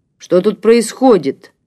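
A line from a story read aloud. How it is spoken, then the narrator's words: Barking shout. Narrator (Russian): рявкнул подоспевший Илья Иванович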